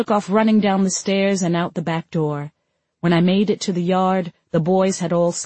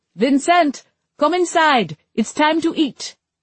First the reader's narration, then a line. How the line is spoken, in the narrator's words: I yelled out the window